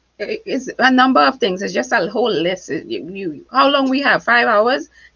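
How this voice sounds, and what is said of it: Non-American foreign accent. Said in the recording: “my accent at the end of the day makes me extra special ... I was always extra conscious of my accent ... I thought my accent made me sound like I wasn't smart”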